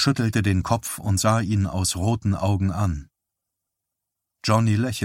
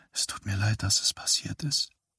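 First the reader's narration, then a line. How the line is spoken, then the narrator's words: Barely audible whisper. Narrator (German): sagte sie so leise, dass er sie kaum hören konnte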